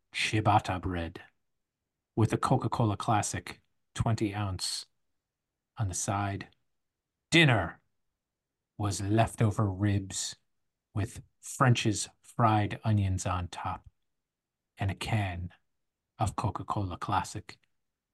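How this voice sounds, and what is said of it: Deep, romanticized menu-reading voice. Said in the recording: “I liked the deep voice. I liked the romanticizing about the menu.”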